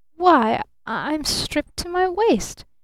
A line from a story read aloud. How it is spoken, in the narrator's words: he stammered in real horror